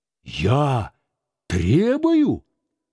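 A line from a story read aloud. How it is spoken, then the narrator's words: Exclaiming. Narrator (Russian): опять воскликнул дух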